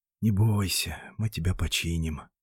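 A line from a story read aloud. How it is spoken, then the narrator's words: Whisper. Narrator (Russian): прошептал Макс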